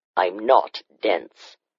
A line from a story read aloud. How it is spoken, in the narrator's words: he said just as stiffly